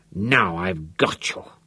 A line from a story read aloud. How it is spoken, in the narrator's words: he mumbled through swollen, bloody lips